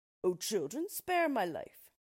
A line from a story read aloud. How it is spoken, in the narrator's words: Only when they were too far, he cried